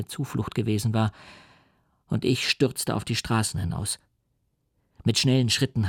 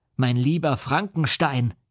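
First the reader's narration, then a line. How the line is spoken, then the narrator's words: Exclaimed. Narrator (German): rief er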